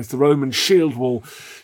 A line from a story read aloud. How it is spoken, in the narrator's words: they screamed